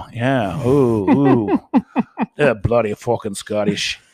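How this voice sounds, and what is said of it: Mixed Scottish, Irish, Australian accent. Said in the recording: “My accent is always a gutter of like Australian, Scottish, and Irish.”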